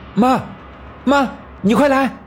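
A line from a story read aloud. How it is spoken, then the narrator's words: Loud shouting. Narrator (Chinese): 啊的大叫了一声，然后大声喊道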